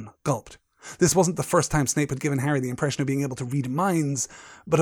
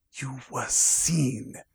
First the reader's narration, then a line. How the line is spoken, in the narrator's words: he hissed